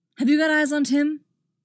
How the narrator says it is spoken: Dick shouted

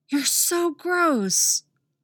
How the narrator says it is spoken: Artemis hisses

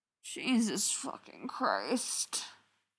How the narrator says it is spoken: she groans, her voice probably an octave lower than normal

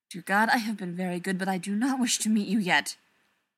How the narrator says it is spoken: Zelenka muttered

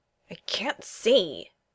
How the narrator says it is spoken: growls

